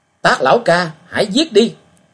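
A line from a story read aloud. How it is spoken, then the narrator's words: Arrogant laugh, loud shout. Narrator (Vietnamese): Y cuồng ngạo cười một tiếng, đồng thời hét lớn nói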